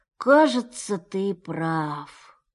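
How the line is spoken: Sad, deep sighs. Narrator (Russian): сказал, глубоко и печально вздыхая

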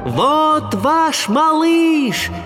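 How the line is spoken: Shouting with full force. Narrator (Russian): закричал я изо всех сил

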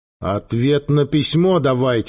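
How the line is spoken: Cold repetition. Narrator (Russian): холодно повторил Гейка

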